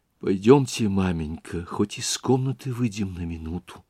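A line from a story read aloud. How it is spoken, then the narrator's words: Frightened whisper. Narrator (Russian): шепнула испуганная Дуня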